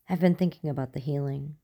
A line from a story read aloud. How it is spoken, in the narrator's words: she said quietly